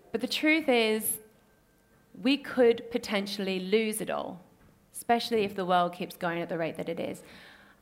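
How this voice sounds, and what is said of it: Australian accent. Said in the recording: “I'm an Australian, if you didn't pick up on the accent. sometimes a little bit Irish, sometimes a little bit British. But no, I am an Aussie.”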